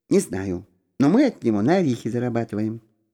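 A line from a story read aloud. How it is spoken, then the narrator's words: Quiet reply. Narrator (Russian): также тихо ответила Люба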